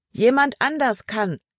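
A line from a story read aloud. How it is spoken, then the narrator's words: Calling back. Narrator (German): rief Emma zurück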